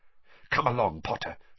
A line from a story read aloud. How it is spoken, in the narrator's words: she whispered